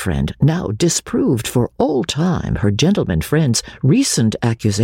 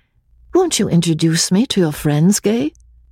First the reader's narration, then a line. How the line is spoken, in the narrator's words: she said, in her clear and lovely voice